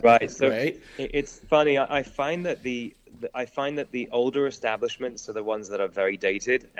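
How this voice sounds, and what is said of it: Non-American, European-sounding accent. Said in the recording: “my accent wouldn't suggest that I am from America ... they assume I'm from Europe, obviously, because of the accent”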